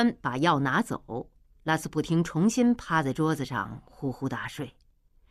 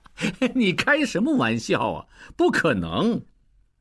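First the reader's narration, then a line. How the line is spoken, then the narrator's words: Loud laugh, sobering up. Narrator (Chinese): 应季酒一点点醒过来，大笑道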